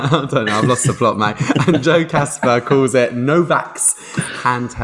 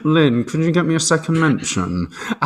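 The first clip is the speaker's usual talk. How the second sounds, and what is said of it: Alan Partridge character voice. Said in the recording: “doing the Partridge voice”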